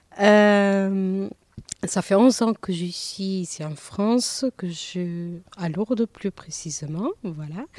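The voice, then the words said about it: Light Portuguese accent in French. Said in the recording (French): “on entend un léger accent dans votre bonjour... je suis d'origine portugaise... C'est pour ça que vous entendez mon accent”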